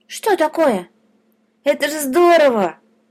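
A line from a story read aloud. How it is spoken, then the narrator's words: Exclaiming. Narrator (Russian): воскликнул полосатик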